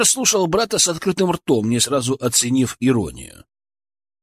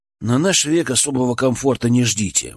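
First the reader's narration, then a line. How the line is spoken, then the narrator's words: Gloomy prediction. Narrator (Russian): мрачно спрогнозировал Денис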